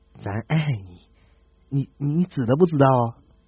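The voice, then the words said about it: Quiet mumbling young man. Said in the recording (Chinese): “男青年小声的嘀咕说”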